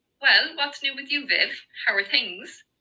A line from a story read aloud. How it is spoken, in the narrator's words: Eva asked